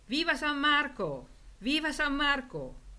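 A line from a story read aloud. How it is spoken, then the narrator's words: Crowd shouting full-voiced. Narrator (Italian): urlato a squarciagola da noi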